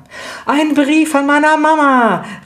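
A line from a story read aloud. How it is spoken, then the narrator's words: Called out. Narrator (German): rief Lydia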